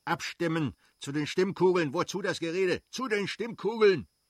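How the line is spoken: Loud call. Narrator (German): rief laut

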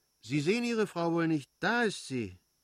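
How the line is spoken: Called out. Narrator (German): rief Fürstin Betsy

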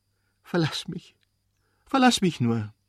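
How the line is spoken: Sobbing outburst. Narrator (German): stieß sie zwischen Schluchzen hervor

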